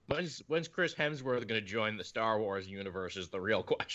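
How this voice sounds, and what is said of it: Usual voice. Nothing is said of it.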